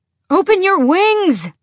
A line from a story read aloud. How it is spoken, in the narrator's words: She screamed over the wind, over her thundering heart